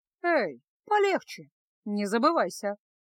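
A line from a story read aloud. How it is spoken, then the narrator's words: Calm reply. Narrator (Russian): спокойно ответила Феска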